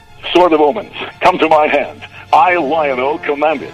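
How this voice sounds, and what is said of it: Poorly imitated cartoon hero voice. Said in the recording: “That's a pretty bad accent. I don't know what I was trying with that one.”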